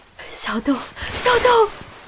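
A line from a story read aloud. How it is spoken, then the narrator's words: Agitated mother crying out. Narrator (Chinese): 死者妈妈情绪又开始激动，哭喊着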